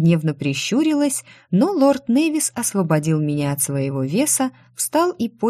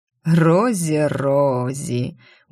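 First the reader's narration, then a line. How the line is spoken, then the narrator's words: Purring laugh. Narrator (Russian): урчаще рассмеялся этот невозможный тип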